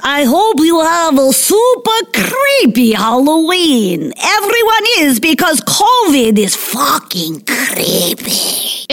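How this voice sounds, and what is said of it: Unidentified put-on accent. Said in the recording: “I don't know what that accent was, but I really liked it.”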